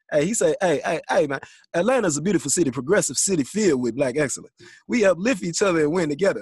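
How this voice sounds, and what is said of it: Imitates another person's voice. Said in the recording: “let me do it in my T.I. accent.”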